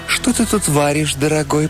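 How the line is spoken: Cooing. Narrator (Russian): проворковала она

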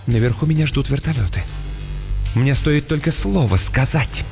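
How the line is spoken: Slightly trembling whisper. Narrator (Russian): Мисс Каммингс слегка дрожащим голосом прошептала

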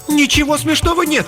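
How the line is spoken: Indignant angry exclamation. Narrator (Russian): пылая праведным гневом, воскликнула Мередит Луна

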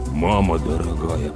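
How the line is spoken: Muttering. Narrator (Russian): пробормотал Слава

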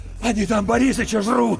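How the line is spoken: Shaking, shouted out. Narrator (Russian): выкрикнул Иван, и его затрясло

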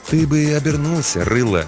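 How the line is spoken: Soft advice. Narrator (Russian): мягко посоветовал детине смотритель

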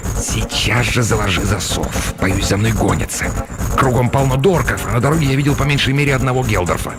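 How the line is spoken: Hissed. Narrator (Russian): Неизвестный прошипел

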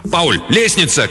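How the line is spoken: Sudden reflexive shout. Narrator (Russian): крикнул Рэнс раньше, чем сам осознал, что что-то заметил

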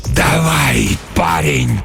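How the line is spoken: Hoarse rasp. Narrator (Russian): прохрипел сумрак

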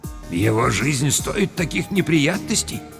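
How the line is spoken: Quiet. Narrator (Russian): сказал негромко

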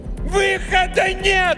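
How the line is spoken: Yelling right in face. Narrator (Russian): заорала она прямо ему в лицо

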